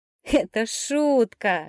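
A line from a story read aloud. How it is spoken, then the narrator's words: Laughing young man. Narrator (Russian): расхохотался парень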